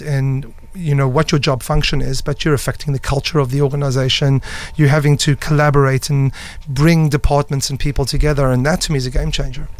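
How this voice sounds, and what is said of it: Noticeable foreign accent. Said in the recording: “that great accent”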